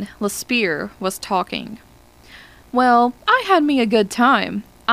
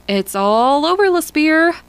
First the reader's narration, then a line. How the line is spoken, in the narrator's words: Hollis shouted into the telephone